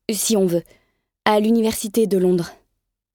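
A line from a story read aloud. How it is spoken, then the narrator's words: Stammer. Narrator (French): bégayai-je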